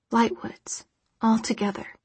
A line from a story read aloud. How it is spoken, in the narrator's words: she whispered